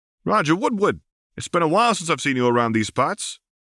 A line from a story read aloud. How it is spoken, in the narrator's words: exclaimed with a strong northeastern accent